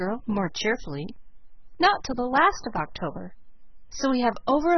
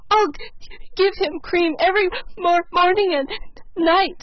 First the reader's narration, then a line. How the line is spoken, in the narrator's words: sobbed Felicity